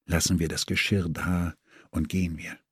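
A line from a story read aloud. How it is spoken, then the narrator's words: Moved, disgusted whisper. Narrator (German): Gerührt und angeekelt flüsterte ich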